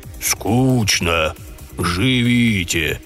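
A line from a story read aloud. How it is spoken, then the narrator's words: Deep warm bass. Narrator (Russian): Тем же густым жарким басом разрешил он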